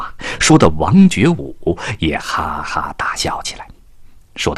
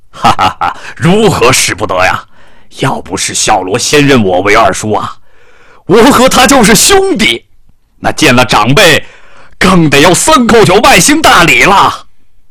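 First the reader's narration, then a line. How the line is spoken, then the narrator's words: Laughing. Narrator (Chinese): 冯林阁笑了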